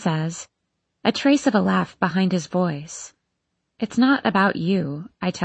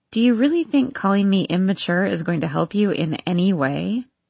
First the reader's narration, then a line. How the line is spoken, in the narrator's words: I laugh